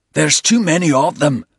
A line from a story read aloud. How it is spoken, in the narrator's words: Bald shouted above the crack of rifle rounds being discharged and the whoosh of rockets fizzing out from between the trees